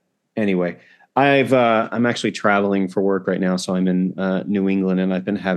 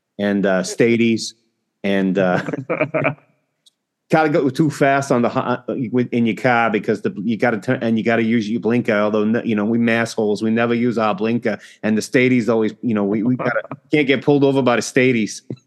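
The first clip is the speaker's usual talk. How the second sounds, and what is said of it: Put-on New England Boston accent. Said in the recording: “trying to replicate that very specific New England accent”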